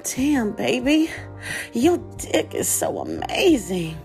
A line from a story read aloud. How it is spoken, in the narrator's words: moaned and said